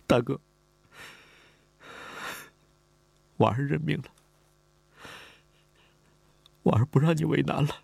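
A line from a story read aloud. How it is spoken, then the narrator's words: Crying while speaking. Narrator (Chinese): 李婉儿哭了，他哭着说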